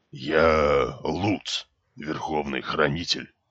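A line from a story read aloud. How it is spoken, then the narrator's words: Solemn. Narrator (Russian): торжественно произнес толстяк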